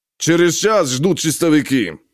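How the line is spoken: Barking. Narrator (Russian): рявкнул Махмуд

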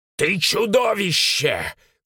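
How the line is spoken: Shouting. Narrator (Russian): кричал он

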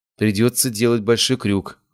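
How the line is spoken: Sighing. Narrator (Russian): вздохнула она

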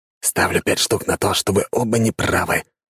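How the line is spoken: Excited whisper. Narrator (Russian): азартно прошептал сторож

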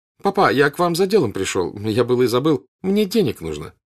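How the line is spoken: Forced casual tone. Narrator (Russian): И вдруг самым небрежным тоном, таким, что он сам себе гадок казался, как будто он просил экипажа съездить в город, он сказал отцу

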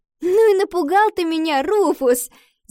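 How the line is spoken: Girl laughing. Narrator (Russian): засмеялась девочка

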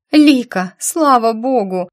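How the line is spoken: Tearful girl exclaiming. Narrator (Russian): сквозь слезы воскликнула девочка

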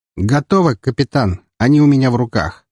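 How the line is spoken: Satisfied grunt. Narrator (Russian): с удовлетворением хмыкнул он

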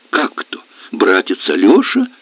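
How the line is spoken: Laughing daughter. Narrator (Russian): засмеялась дочь

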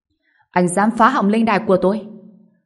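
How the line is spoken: Snorting, trembling shout. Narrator (Vietnamese): Gã ta hừ giọng, cả người run rẩy, hét lên

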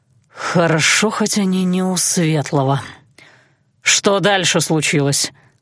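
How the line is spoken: Through gritted teeth. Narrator (Russian): Александр снова выругался, но процедил

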